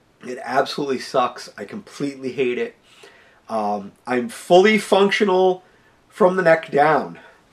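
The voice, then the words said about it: Congested voice from a cold. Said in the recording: “as you can tell, as I said, I have a cold ... my head is just completely congested”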